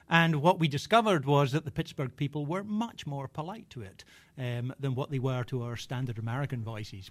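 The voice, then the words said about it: Scottish accent. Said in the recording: “Southern British English, not Scottish like mine”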